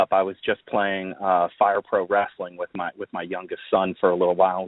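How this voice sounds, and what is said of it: Hoarse, strained voice. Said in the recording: “I apologize if my voice is a little beat up ... We were screaming”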